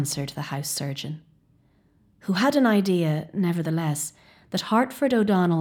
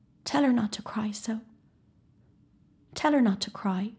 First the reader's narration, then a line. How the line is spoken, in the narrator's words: the boy lying on the table murmur faintly